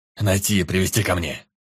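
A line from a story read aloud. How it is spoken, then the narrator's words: Barked command. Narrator (Russian): рявкнул Тир Велден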